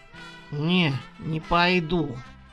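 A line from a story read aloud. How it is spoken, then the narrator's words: Curt grumble. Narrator (Russian): буркнул Серёнька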